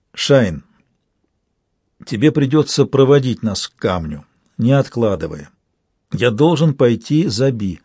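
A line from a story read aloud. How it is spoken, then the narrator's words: Forced calm. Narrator (Russian): Я произнес, стараясь, чтобы мой голос звучал ровно и спокойно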